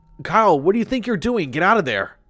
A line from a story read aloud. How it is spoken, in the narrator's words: I called out over the water